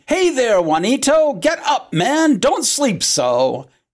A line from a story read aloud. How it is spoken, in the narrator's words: Santiago's voice as he entered his room in the morning shouting